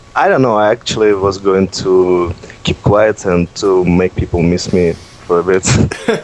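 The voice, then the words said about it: Strong Russian accent. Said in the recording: “this horrible Russian accent”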